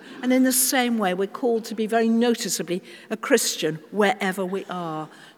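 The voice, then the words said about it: British accent. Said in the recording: “people can usually spot by my accent, oh, she's very British”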